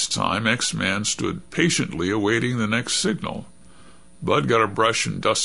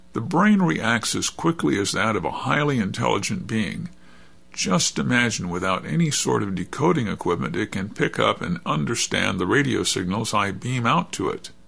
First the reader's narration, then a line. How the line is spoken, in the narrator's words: exclaimed